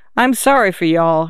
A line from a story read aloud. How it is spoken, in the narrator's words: Hagelore said